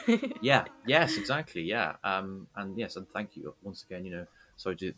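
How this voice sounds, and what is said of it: Usual voice. Nothing is said of it.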